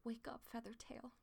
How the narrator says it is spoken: he begged

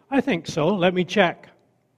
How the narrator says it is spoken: The private said cheerfully

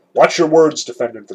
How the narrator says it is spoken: the judge said sternly

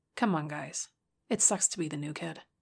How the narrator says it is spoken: Bridget said coolly

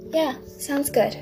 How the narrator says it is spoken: Dinky said in a fairly happy tone

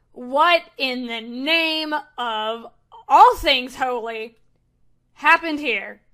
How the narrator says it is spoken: angry female yelling as Drusilla is shouting

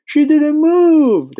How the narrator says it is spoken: they cried out

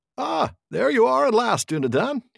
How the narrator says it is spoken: cried

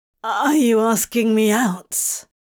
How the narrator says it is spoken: He asked, his voice emerging a bit rough and croaky

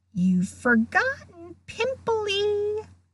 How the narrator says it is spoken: Peeves hissed in her ear

